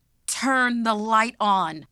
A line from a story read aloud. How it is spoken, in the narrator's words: she yelled